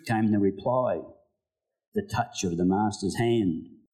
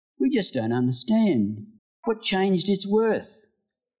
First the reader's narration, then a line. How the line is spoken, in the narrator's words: some of them cried